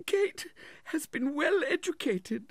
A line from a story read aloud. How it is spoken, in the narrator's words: sobbed Mrs